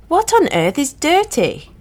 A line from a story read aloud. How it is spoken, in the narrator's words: I cried